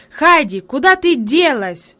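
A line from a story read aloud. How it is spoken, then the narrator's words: Sudden angry shout. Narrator (Russian): вдруг сердито крикнул он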